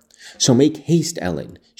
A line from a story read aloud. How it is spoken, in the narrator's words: she cried